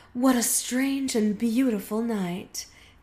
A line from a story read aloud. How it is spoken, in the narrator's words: Heaven sighed